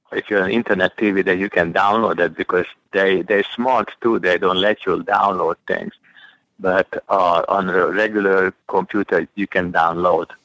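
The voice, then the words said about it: Heavy Eastern European accent. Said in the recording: “he is just speaking with a heavier accent”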